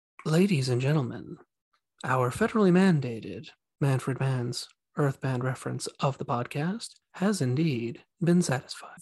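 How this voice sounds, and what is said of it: Imitated NPR radio announcer voice. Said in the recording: “this is my NPR voice”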